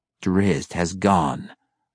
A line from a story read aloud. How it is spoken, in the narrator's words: growled Malice